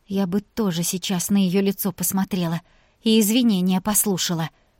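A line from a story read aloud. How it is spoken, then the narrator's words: Quiet. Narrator (Russian): тихо проговорила Вика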